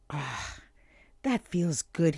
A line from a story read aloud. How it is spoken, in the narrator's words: he sighed